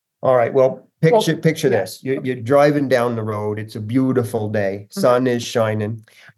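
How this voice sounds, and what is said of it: Thick put-on Vermont accent. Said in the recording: “the Vermont accent, and I can turn it on real thick ... in character”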